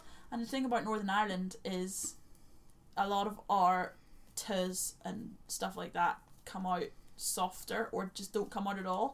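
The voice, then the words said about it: Broad Northern Irish accent. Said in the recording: “in the Northern Irish accent, a lot of those sounds don't come through ... my accent goes mental this episode ... it goes really broad”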